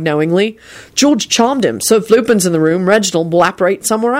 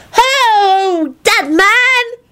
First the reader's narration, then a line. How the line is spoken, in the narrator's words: Natalie hollered happily